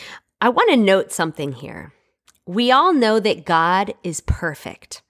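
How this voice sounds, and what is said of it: Usual voice. Nothing is said of it.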